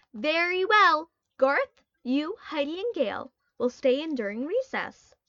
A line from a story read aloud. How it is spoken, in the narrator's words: the teacher said firmly